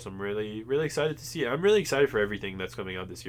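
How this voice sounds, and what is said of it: Congested, stuffy nasal voice. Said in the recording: “my nose is definitely stuffed”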